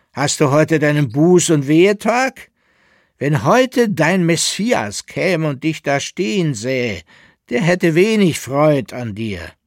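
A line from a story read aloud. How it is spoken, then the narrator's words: Called out. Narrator (German): rief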